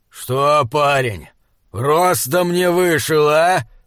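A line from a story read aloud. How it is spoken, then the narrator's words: Growling. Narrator (Russian): прорычал он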